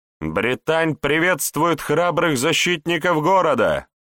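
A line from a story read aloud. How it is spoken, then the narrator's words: Shouting from afar. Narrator (Russian): Еще издалека выкрикнула она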